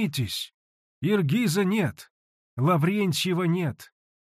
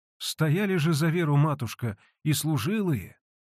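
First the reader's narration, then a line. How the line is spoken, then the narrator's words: Timid interjection. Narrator (Russian): робко ввернула слова Аркадия, слывшая за великую начетчицу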